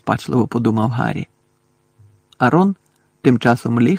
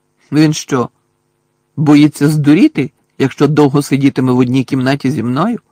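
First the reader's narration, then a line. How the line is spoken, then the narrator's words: Loud question. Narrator (Ukrainian): голосно поцікавився Гаррі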